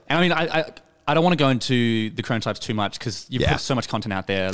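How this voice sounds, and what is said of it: Speaks with a noticeable accent. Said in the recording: “My accent coming through.”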